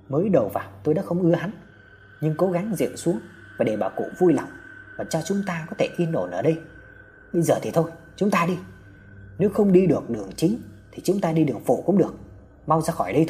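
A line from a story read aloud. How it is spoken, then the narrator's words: Harsh emphatic voice. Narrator (Vietnamese): Hào gằn giọng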